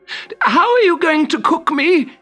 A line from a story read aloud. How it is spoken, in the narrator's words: gasped